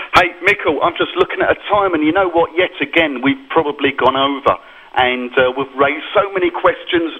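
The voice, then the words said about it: English accent. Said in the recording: “my funny English accent.”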